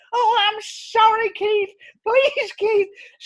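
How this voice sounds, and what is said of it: Puppet character voice. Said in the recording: “I'm the one doing your voice, Orville”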